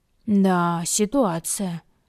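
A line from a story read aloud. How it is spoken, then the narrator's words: Joyless drawl. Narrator (Russian): безрадостно протянул друг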